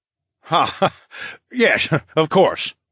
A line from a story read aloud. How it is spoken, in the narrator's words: Phineas laughed